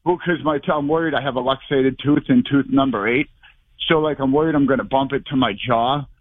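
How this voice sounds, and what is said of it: Sounds out of breath. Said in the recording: “Why do you sound like you're out of breath?”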